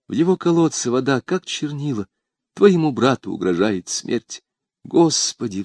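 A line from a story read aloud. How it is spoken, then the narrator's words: Sigh. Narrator (Russian): вздохнула она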